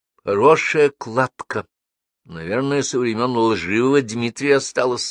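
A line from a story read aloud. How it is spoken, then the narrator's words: Plain. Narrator (Russian): спросила она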